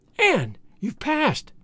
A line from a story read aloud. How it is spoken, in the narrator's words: she cried